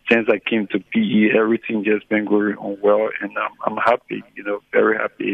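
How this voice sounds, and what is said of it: Happy-sounding voice. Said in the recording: “I can hear in the voice that you sound happy.”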